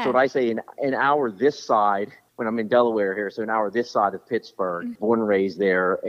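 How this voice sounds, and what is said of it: Western Pennsylvania twang accent. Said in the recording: “It's an accent, something ... is it a Boston accent? ... There's a little bit of like a Boston, New York ... my Western PA twang”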